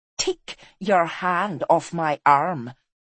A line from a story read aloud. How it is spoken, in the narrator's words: said the woman icily